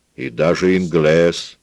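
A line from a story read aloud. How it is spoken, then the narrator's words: Booming drone. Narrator (Russian): прогудела Пилар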